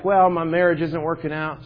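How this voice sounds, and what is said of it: Put-on Texas accent. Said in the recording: “In Texas, everybody's a Christian. ... Sorry, my accent.”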